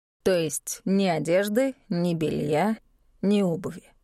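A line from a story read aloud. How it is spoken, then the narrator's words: Thoughtful. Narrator (Russian): Задумчиво уточнил Брист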